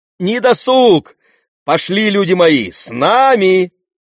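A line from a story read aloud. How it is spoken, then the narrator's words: Shouted summons. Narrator (Russian): крикнул Кадм, призывая свиту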